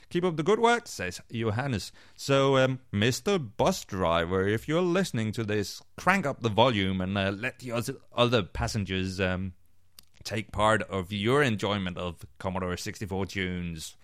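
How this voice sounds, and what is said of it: Smooth Danish accent in English. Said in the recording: “You've got one smooth Dutch accent ... It says a smooth Dutch accent, and I'm actually Danish”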